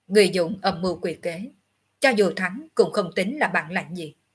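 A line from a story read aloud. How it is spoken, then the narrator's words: Cold. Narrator (Vietnamese): Ngọc Hư Tử lạnh lùng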